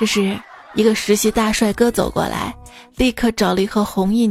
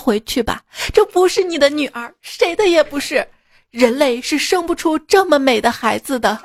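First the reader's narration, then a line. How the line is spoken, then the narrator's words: Crying, sniffling. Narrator (Chinese): 医生哭了，抹着鼻涕说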